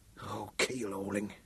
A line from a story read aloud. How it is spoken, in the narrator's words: Ed whispered